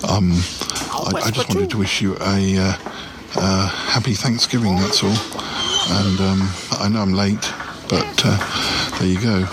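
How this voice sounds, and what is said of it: Whispering. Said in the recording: “I'm having to whisper”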